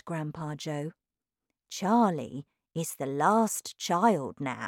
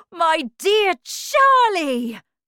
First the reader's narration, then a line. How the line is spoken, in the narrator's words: cried Mr